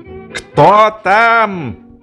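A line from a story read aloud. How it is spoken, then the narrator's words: Angry shout. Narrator (Russian): Дуб, разозлившись, крикнул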